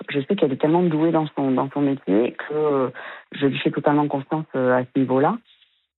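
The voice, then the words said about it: Southwestern French accent, from Bordeaux. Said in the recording (French): “votre joli accent du sud-ouest de Bordeaux ... Bah oui, on l'entend, bien sûr, on l'entend”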